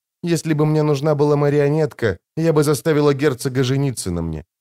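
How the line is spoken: Calm. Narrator (Russian): спокойно продолжала Джессика

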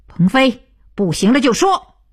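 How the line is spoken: Loud call. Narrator (Chinese): 徐东福大声道

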